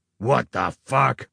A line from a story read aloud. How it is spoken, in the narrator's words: the Duke growled